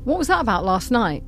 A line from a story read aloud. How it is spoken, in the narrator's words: I asked, keeping my tone light so I didn't offend or embarrass her